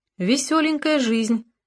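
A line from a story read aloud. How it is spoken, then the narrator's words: Plain. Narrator (Russian): сказала Алекса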